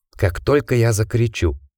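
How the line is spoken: Whispered. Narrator (Russian): прошептал Джек Ричарду

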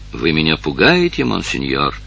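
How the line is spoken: Low, mock-fearful. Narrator (Russian): сказала она вполголоса с притворно боязливой улыбкой

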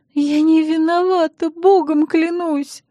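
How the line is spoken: Sobbing. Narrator (Russian): вновь зарыдала Эстер

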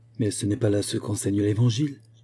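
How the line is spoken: Murmured. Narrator (French): murmurait Margaret

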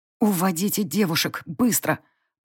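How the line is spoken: Hissing over shoulder. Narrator (Russian): Прошипела я через плечо Вильгельмине

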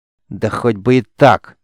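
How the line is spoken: Growl through clenched teeth. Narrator (Russian): стиснув зубы, прорычала девица

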